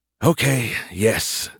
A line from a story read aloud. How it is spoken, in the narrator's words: Skippy groaned